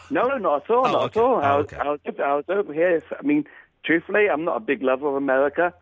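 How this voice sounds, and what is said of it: Transatlantic English-American accent. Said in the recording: “You've got that weird kind of Davy Jones transatlantic accent where you sort of sound English, but you say some things in sort of an American way.”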